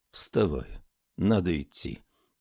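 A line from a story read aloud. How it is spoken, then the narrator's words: Soft murmur. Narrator (Russian): тихонько проговорил он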